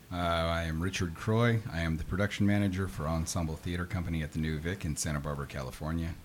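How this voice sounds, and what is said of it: Smooth radio announcer voice. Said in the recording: “butter smooth radio voice”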